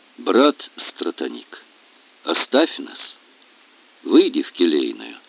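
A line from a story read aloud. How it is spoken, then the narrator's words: Quiet. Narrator (Russian): отец Георгий тихо сказал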